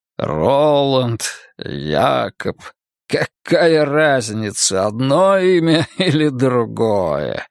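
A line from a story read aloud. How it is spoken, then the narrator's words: Laughing. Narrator (Russian): засмеялся Каин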